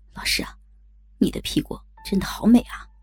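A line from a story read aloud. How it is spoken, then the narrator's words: Admiring exclamation. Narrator (Chinese): 阿强感叹着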